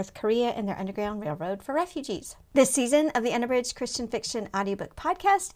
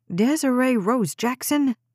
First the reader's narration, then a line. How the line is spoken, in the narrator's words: Jade snapped, then paused to collect her breath